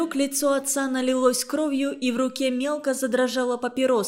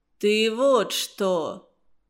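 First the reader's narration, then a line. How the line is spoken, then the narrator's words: Muffled, low. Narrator (Russian): глухо сказал он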